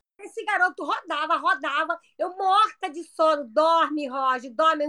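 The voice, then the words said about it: Imitates a comic mother character's voice. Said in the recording (Portuguese): “eu tô imitando a dona Hermínia porque é assim que ela fala”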